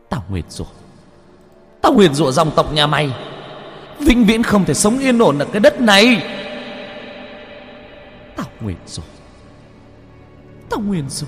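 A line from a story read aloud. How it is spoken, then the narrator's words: Screaming. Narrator (Vietnamese): Cô vẫn thét ra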